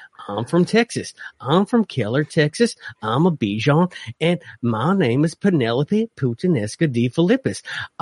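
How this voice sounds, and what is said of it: Dog character voice, Southern accent. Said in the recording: “I have a voice for my dog, Penelope... every Southern accent I do sounds like Penelope”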